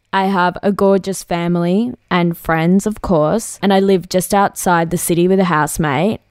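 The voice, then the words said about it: Broad Australian accent. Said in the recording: “the little Aussie bogan accent”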